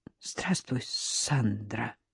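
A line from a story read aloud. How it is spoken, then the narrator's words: Choked, forced out. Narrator (Russian): сглотнула комок в горле и выдавила из себя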